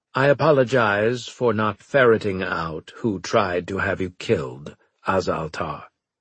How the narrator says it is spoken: he said stiffly

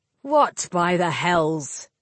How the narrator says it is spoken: Caradoc snapped

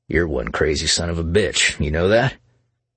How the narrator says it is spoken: Jack laughed

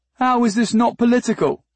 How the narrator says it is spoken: shouted the chief through the film of his fifth scotch

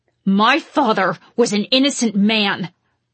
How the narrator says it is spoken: I growled at him

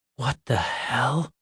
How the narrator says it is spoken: Nick whispered

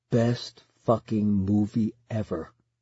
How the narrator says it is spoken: Colin whispers to me, pressing his lips against my ear

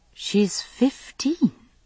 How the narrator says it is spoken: I said uneasily

